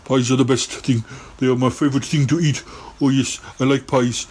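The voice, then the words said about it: Impression of another person's voice. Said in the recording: “my Charlie Gurr impression”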